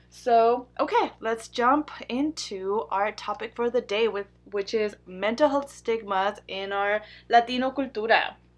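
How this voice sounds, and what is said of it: Non-native English accent. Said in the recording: “Accent problems, you know, all of that I used to be very embarrassed about ... I love my accent now, and I'm proud to have it”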